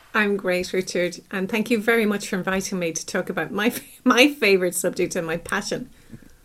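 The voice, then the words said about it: Irish accent. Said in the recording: “you might guess from my accent, I'm from Ireland”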